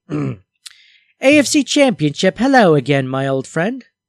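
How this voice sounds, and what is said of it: Rough put-on British accent. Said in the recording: “I should just do them in in an in a British accent. ... That's pretty rough.”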